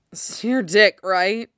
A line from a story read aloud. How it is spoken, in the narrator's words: slurred out